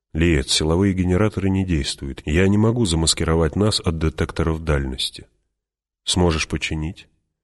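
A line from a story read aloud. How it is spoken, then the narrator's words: Quiet. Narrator (Russian): Фриман, негромко сказал Кинесу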